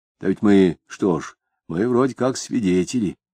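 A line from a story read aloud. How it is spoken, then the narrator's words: Quiet reply. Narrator (Russian): тихо ответил Егерев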